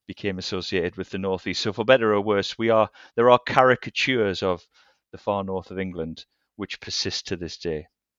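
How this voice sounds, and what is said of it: Northeast English accent. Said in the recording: “careful listeners, will hear your voice and will recognise that you're speaking about your people ... I was also born and raised in the northeast of England. So although I don't have the same accent as you”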